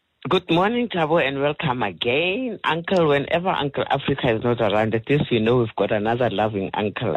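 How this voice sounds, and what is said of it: Croaky, hoarse voice. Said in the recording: “My voice is quite different from the usual ... there's a frog in my throat”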